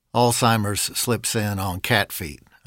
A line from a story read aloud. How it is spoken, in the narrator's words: said